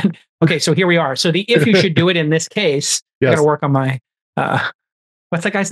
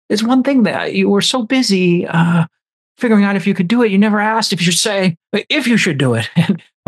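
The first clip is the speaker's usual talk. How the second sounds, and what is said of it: Imitates another person's voice, unconvincing. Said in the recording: “your Jeff Goldblum accent might need a little bit of work.”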